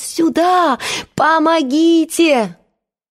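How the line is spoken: Shouting at full voice. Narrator (Russian): Маша закричала во весь голос

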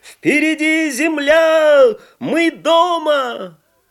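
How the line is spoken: Sailors shouting. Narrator (Russian): матросы на палубе закричали

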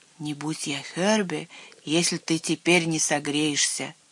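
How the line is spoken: Plain. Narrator (Russian): сказал

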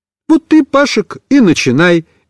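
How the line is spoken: Cheerful. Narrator (Russian): весело сказал Пепик

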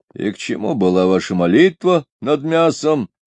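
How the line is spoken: Sullen grumble. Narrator (Russian): угрюмо пробурчал Чанг

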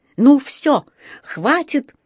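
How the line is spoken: Yelling. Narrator (Russian): заорал тот

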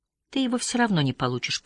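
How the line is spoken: Whispering. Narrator (Russian): прошептала Лотте

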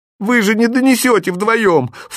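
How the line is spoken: Crying mother's outcry. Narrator (Russian): в плаче выкрикнула мать

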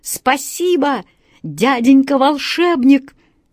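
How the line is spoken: Shouting. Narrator (Russian): закричал Вася Вертушинкин

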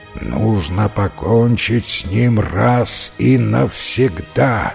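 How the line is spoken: Rough growl. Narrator (Russian): прорычал все тот же грубый голос

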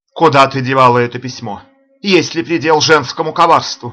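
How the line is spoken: Shouting. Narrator (Russian): закричал Мирион

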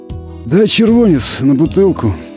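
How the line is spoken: Vagrant's quiet, clear voice. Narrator (Russian): негромко, но внятно проговорил бомж

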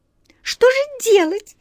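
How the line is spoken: Anxious squeak, mice. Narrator (Russian): с тревогой пискнули черные мыши

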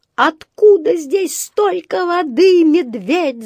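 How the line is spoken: Yelling. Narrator (Russian): завопил он

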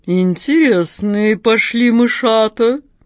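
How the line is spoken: Deep purring cat voice. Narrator (Russian): басом промурлыкала кошка Мурка

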